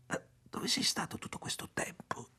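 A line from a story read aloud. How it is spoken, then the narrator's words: Whisper. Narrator (Italian): sussurrò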